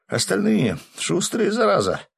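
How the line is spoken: Exhaled exclamation. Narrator (Russian): с засады выдохнул Гензо

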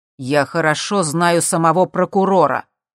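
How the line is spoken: Loud. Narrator (Russian): громко сказал Джим

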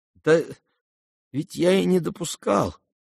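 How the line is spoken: Unhappy prince muttering. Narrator (Russian): пробормотал несчастный князь

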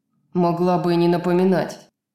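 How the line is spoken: Growled. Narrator (Russian): прорычал Рун

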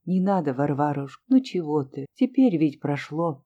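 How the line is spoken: Quiet. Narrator (Russian): Настя тихо сказала

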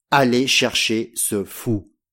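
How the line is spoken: Plain. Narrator (French): dit-il

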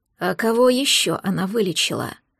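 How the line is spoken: Angry growl. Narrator (Russian): прорычал Ирсай, наливаясь злостью

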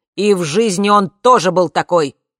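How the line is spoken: Shouted reply. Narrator (Russian): прокричал наш приятель в ответ

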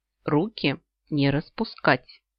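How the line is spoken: Stern warning. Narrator (Russian): Строго предупредила разноцветная

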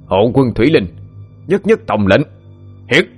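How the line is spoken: Wild domineering growl. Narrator (Vietnamese): tiếng gầm gừ mang dại, tràn đầy bá khí

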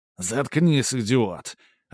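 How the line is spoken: Irritated bark, then quieter. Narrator (Russian): раздраженно рявкнул тот в ответ и уже чуть тише

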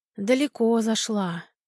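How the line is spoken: Old woman sighing. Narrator (Russian): вздохнула бабушка Груша

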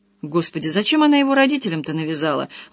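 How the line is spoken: Exclamation. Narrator (Russian): воскликнула Маруся

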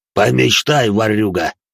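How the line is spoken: Scoffing snort. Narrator (Russian): хмыкнул Шек

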